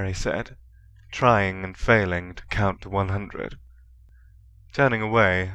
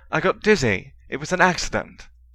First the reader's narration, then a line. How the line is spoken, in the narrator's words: Harry, startled, snapped back